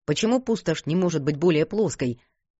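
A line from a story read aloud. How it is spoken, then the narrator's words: Grumbling. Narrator (Russian): проворчала она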